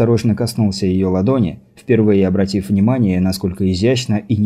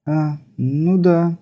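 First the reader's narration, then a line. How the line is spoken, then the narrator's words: Drawn-out drawl. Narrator (Russian): протянула она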